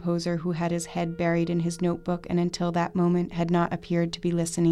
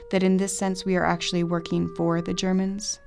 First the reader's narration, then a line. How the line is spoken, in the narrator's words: asked, his voice deepening